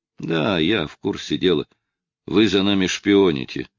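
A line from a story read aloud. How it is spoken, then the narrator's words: Sighing. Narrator (Russian): вздохнул Ромеро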